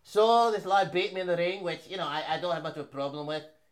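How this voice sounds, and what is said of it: Put-on British-Isles accent, imitating fighter. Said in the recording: “you're going to be Conor because you do these British accents.”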